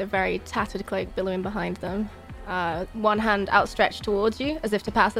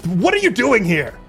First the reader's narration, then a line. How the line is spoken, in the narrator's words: angrily snarling at her